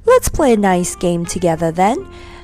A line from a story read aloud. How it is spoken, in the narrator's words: said laughing, longing to be friends